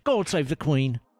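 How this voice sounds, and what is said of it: Put-on British accent. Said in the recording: “That nailed the accent there.”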